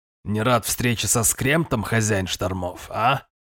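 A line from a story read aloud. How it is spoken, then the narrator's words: Muffled question. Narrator (Russian): глухо спросил он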